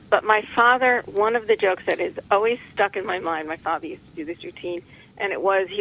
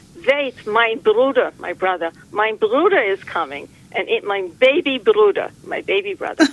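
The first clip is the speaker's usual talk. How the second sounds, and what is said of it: Put-on Jewish accent, old woman. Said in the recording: “I'm going to do a Jewish accent.”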